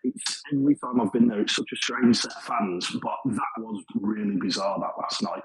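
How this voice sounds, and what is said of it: Birmingham accent. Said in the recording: “as you can probably tell by my accent, I'm not native to Sheffield. I'm from Birmingham”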